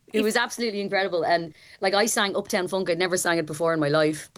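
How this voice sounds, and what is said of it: Hoarse, worn-out voice. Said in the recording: “My voice is gone ... if ever there was a reason to be hoarse”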